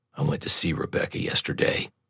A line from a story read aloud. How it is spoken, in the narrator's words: said in a low tone